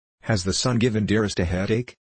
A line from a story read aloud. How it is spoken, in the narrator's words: he inquired anxiously